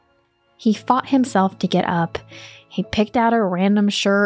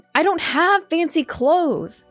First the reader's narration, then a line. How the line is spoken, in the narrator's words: he yelled downstairs